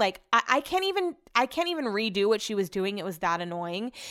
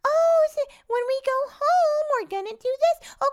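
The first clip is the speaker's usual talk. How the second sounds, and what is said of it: Sweet sing-song baby voice. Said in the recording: “this mom was doing like a baby voice to her”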